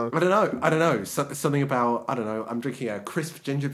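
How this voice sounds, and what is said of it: Usual voice. Nothing is said of it.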